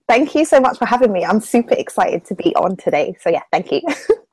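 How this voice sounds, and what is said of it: Southern English accent. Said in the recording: “I love her accent ... her accent is distinctly different from yours ... she is from the South as well. And her accent is kind of similar to yours”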